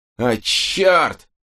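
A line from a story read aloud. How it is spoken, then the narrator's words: Roaring. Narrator (Russian): взревел Валенсуэла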